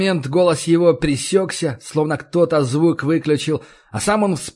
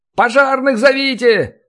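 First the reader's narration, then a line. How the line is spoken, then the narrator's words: Yelling. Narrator (Russian): заорал один из них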